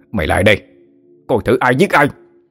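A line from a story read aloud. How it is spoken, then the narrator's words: Threatening shout. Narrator (Vietnamese): Hắn hét lên uy hiếp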